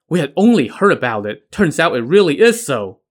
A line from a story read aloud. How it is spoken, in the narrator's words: the Liu brothers said excitedly